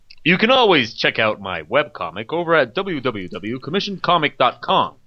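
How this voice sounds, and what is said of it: Promotional announcer-style publicity voice. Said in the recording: “put on my publicity voice”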